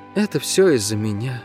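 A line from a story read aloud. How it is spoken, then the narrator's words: Hollow, muffled voice. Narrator (Russian): глухо произнесла Гира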